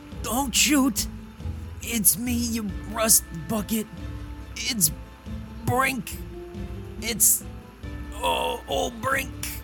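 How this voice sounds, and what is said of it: Hoarse character voice. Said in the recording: “You hear a hoarse but familiar voice say”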